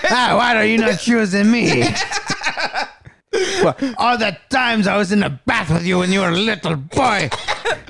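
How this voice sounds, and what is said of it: Put-on French accent. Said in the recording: “you do like a French accent”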